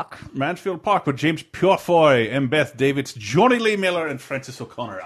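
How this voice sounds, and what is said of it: Put-on unidentified accent. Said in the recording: “I don't know what accent I'm affecting here”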